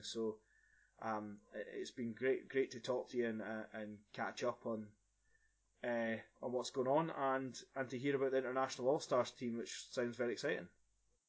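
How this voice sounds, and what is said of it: Strong Scottish accent. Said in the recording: “a big Scottish accent.”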